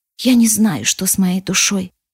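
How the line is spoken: Quiet. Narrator (Russian): говорю я тихо

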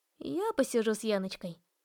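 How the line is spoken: Aunt's snort. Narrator (Russian): фыркнула тетушка

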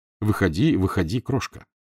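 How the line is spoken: Very tender. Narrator (Russian): сказал очень ласково

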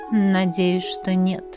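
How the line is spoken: Thoughtful drawl. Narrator (Russian): задумчиво протянула Элисандра

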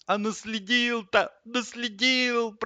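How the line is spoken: Groan. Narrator (Russian): простонал линолеум

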